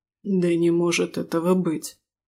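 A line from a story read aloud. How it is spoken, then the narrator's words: Slightly hoarse muttering. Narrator (Russian): чуть хрипло проговорил Рис себе под нос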